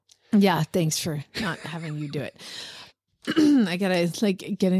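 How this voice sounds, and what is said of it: Usual voice. Nothing is said of it.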